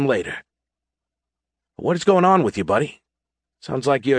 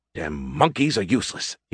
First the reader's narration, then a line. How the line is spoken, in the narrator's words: he grumbled